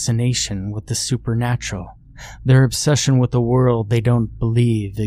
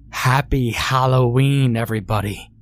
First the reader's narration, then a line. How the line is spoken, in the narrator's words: I cried